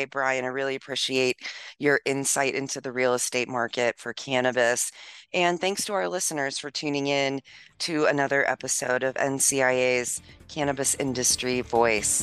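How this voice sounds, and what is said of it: Strained, fading voice. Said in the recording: “apparently I'm losing my voice in this episode too”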